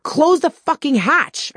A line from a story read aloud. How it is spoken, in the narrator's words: I screamed over the wind